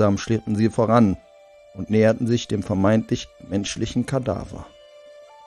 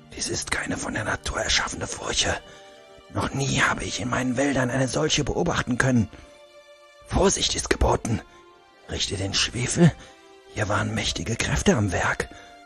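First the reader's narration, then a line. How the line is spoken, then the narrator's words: Whispering to someone. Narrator (German): flüsterte ihm zu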